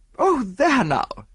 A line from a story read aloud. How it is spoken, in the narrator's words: she exclaimed